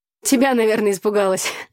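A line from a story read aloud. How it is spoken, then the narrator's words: Laughing. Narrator (Russian): засмеялась я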